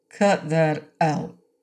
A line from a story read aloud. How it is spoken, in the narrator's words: he said slowly